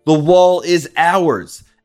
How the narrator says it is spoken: shouting

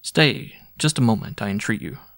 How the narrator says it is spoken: said I

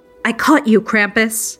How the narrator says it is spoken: screamed

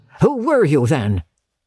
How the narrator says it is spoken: said Scrooge, raising his voice

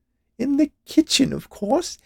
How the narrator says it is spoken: she added with a laugh

